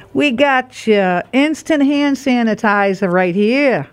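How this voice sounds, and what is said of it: Put-on accent. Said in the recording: “I don't know why I did an accent.”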